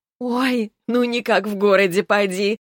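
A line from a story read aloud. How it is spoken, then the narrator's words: Laughing. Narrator (Russian): засмеялась Нина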